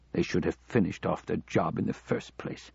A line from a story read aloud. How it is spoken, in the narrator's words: Mackenzie muttered